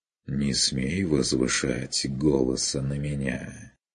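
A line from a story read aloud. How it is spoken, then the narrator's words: Soft. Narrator (Russian): Мягко проговорил майстер Мельхиор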